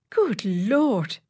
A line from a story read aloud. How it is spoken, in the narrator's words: exclaimed the secretary